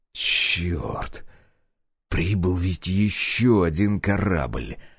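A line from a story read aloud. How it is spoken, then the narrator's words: Hiss. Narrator (Russian): прошипел я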